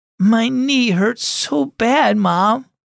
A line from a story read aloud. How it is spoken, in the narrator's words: Cora whimpered, trying not to cry